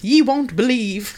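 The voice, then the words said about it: Put-on old English voice. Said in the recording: “Let me do the old English voice.”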